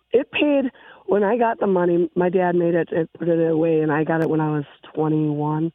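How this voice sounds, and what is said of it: Congested, sick-sounding voice. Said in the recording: “I've got a bad cold”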